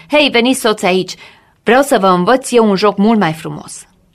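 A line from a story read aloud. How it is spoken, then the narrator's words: Girl shouting. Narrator (Romanian): strigă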